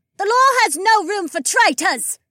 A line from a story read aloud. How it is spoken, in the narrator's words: another woman screamed